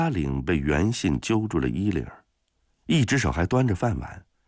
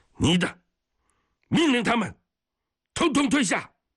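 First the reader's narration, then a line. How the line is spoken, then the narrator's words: Loud, flustered command. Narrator (Chinese): 袁信一看事情要闹大，有点慌神儿…大声地命令他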